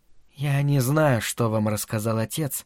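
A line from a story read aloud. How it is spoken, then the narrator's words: Timid, lowered voice. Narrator (Russian): робко проговорила она наконец, понизив голос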